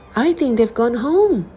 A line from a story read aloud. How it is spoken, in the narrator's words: exclaimed Sam